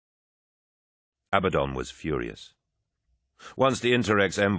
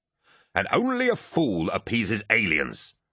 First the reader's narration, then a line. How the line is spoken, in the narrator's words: Abaddon snarled